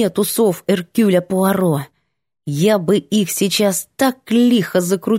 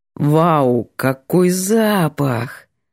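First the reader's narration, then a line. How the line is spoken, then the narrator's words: Pleased drawl. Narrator (Russian): Довольно протянул парень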